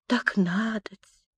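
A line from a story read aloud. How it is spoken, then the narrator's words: Gentle kind mumbling. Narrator (Russian): И легкий, добрый, бормочет детка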